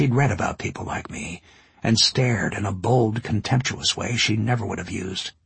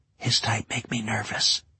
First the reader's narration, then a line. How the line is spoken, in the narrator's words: I heard the woman whisper